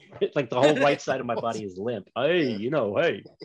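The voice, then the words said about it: Imitates another person's voice. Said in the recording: “talk like that ... put the side of my mouth over here and keep only this half of my mouth open, and then maybe I can get the voice out ... my Sylvester Stallone impersonation”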